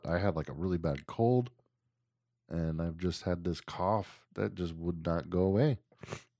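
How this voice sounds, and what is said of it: Scratchy, sick-sounding voice. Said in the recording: “my voice is a little scratchy and I sound like I'm dying, kind of”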